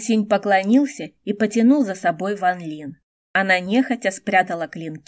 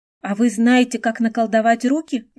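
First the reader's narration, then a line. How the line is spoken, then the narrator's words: Exclaimed. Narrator (Russian): воскликнула Ван Лин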